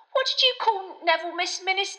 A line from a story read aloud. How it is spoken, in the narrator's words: asked excitedly